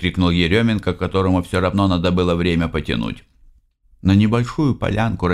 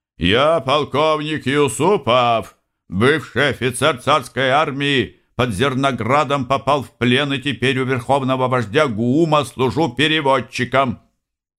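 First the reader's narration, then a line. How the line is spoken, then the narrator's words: Shout. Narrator (Russian): выкрикнул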